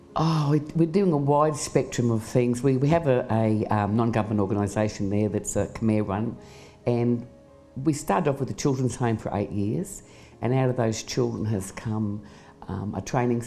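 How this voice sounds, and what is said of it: Australian accent. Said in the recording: “your accent will give you away. Tell us where you're from ... I'm from Australia.”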